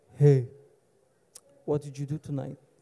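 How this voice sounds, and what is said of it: Poor put-on accent. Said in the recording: “Very bad accent.”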